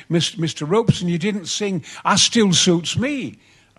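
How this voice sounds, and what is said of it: Strong Yorkshire accent. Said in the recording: “with a great Yorkshire accent”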